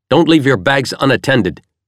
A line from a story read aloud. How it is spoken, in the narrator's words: the man suddenly barked out sharply and in perfect English